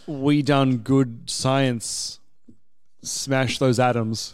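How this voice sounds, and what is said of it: Poor impression of co-host. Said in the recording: “terrible Zane impression”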